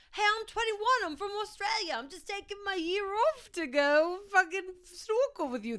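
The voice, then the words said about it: Poor put-on Australian accent. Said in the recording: “That's a terrible accent, I can't do. ... I can't do Australia”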